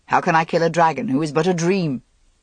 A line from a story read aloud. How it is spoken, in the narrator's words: Arthur chuckled